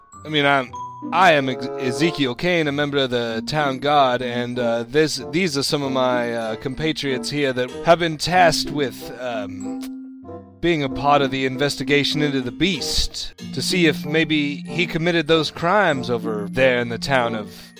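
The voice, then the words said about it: Speaks in a put-on accent. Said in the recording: “That is really hard to do with an accent... with an accent, it's really hard”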